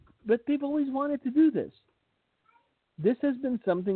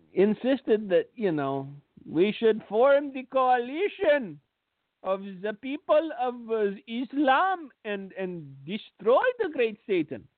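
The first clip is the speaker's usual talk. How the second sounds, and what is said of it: Put-on Jewish accent. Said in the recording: “I said that with a Jewish accent”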